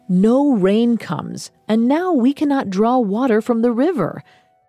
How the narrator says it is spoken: One man barked

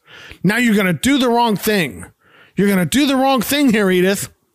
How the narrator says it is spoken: Archie yells

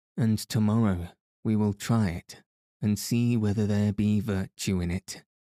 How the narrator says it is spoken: quoth the king merrily

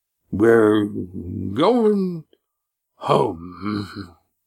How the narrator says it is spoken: he announced, his voice slurred and uneven

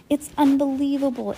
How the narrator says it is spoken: Aunt Josephine cried

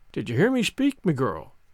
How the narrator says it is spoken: he said, in that quiet tone which no one inside the inn dared to disobey

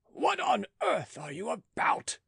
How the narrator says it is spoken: cried he

